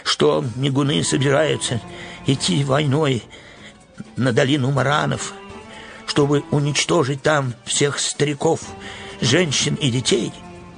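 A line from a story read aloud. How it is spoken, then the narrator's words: Trembling voice. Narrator (Russian): дрожащим голосом сказал Верес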